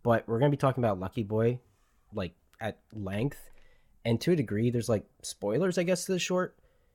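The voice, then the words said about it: Slightly strained voice after illness. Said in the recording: “I unfortunately got sick ... I'm still recovering for it, so my voice is a little bit weird.”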